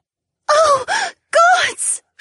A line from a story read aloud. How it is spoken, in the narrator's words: She cried out